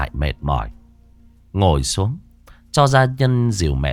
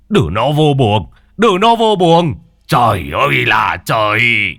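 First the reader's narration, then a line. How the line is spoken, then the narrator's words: Old man shouting. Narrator (Vietnamese): ông ngoại quát lên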